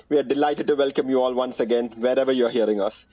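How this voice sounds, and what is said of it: Indian accent. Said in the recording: “your favorite NBA podcast in an Indian accent.”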